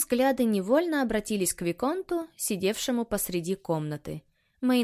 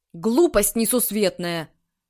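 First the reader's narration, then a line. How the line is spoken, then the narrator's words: Irritated. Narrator (Russian): раздраженно сказал Тарас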